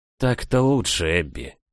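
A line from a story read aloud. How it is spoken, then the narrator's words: Breathed out softly. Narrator (Russian): выдохнул он мне в макушку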